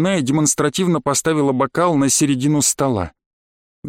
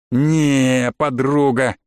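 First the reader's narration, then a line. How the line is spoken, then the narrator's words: Angry drawl. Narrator (Russian): зло протянул я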